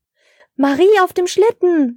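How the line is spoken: Surprised call. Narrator (German): rief Herr Schneemann überrascht

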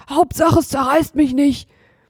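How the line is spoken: Panting. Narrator (German): keuchte Hotzenplotz

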